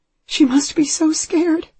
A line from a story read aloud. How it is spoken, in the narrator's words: she says, and then she falls completely apart, sobbing uncontrollably